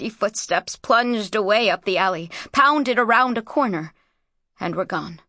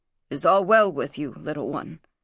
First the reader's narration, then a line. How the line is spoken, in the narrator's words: he muttered